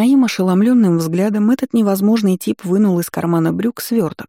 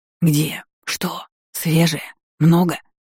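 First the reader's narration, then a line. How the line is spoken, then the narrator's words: Whispering flowers. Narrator (Russian): Принялись шептать цветки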